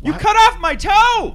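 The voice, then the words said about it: Shouting loudly. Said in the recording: “Why are you shouting? ... Yeah, don't shout. ... You're hurting our ears. ... it wouldn't be so loud”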